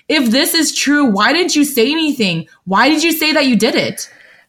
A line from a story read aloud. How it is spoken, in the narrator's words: Lan Chancho shouts